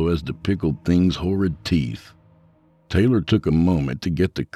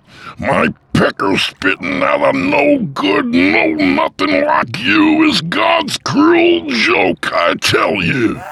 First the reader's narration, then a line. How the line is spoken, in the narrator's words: Taylor shrieked